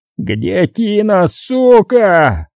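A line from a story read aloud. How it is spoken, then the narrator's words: Furious yell. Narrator (Russian): заорал он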